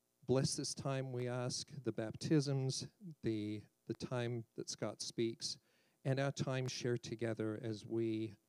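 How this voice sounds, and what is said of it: Noticeable foreign accent. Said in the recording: “you did detect an accent. A couple of people are like, where's ... from? I said, from the land of hobbits and wizards.”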